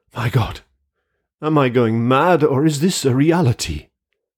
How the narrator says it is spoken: staggered back and exclaimed

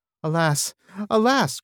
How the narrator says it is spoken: cried Legolas, and in his fair elvish face there was great distress

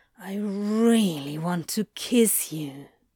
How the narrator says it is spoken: Crowley murmured

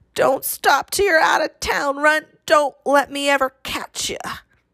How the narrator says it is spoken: McNabb gasping, croaking after him

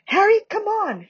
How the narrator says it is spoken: shrieked Hermione from the center of the knot of people now fighting to get out

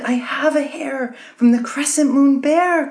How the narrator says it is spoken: cried the young woman

